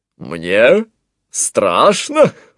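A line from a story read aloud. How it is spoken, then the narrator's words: Laughing. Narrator (Russian): рассмеялся Антуан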